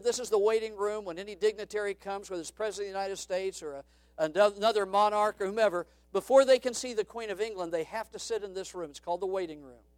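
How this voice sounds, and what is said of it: Attempted Irish accent, mixed. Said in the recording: “I don't know how to mimic an Irish accent, so please forgive the accent ... It may be a little bit of Dutch and a little bit of German, a little bit of South America or whatever”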